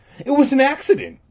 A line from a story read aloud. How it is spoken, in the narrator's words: Todd said impatiently